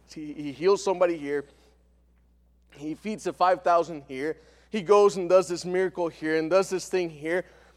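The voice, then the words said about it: Speaker's own accent coming through. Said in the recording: “I told you my accent is going to come out.”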